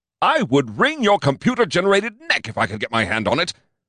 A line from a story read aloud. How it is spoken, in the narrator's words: I shouted